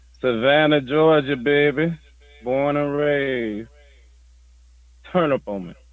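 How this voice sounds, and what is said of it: Georgia Southern US accent. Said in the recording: “When you speak, I hear an accent ... that's not no Midwest accent”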